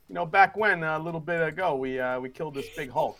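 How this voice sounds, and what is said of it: Character voice. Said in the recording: “I gotta do my voice.”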